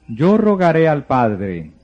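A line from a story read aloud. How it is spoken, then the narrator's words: Plain. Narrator (Spanish): dijo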